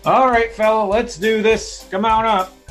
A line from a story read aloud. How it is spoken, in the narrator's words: yell down say